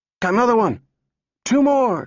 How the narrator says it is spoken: cried

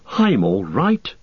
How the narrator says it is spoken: gasped Frodo

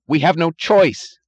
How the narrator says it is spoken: he cried

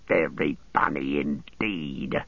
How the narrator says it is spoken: Gorbag spat

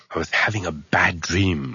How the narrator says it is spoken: Arthur mumbled

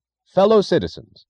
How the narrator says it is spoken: the announcer cried into a microphone

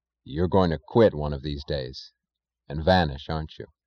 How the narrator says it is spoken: he asked quietly

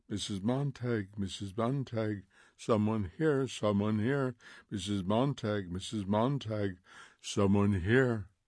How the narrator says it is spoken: softly

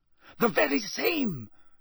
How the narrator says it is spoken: said Karkaroff eagerly

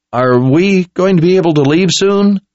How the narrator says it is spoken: asked in a timid squeak

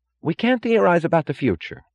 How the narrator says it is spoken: cried Wesley Mooch

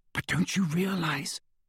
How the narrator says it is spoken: whispered Hermione

